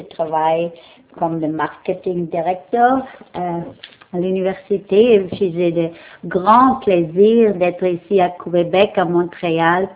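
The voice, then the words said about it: German accent speaking French. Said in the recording (French): “mon accent, je ne suis pas de la langue française, je suis de la langue allemande”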